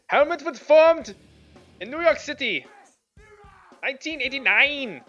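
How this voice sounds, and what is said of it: Put-on German accent. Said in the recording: “Can you do it with a German accent? ... Oh, that was good though. ... reacting to my German”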